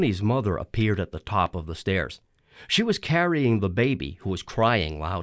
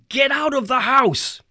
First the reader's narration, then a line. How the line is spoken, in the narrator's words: he yelled